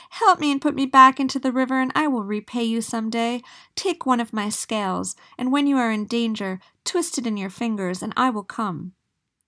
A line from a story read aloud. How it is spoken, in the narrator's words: shrieked the little creature